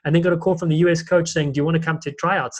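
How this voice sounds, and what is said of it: South African accent. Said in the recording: “as a young South African ... you hear my accent”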